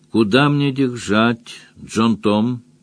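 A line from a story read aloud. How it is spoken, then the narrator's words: Even-voiced question. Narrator (Russian): спросила тигрица ровным голосом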